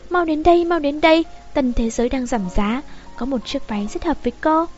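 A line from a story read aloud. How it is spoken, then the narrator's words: Excited, joyful. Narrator (Vietnamese): Châu Tịnh An gọi đến, vui mừng hớn hở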